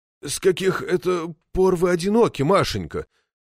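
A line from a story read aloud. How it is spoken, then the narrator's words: Voice wavering. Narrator (Russian): дрогнувшим голосом спросил Макетсон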